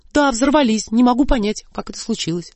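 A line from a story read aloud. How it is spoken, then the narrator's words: Innocent, bewildered confirming tone. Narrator (Russian): Как можно более невинным и растерянным тоном я подтвердила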